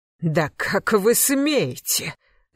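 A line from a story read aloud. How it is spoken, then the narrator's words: Angry growl. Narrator (Russian): зарычал Мелех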